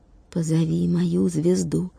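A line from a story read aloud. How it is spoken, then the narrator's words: Child's whisper. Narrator (Russian): шепотом сказал мальчик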